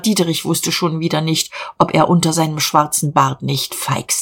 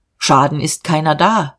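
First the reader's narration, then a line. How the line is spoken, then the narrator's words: Calm. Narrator (German): sagte er ruhig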